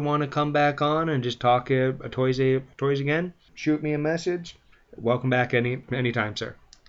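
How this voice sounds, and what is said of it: Mixed French-English accent. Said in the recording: “this guy's accent is awful. What is this muddled half-French, half-English thing I got going on here?”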